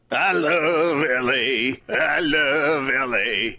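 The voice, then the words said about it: Bad impression, sounds like retching. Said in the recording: “Is that your Randy Newman impression? ... horrible ... sounds like you're vomiting ... dry heaving”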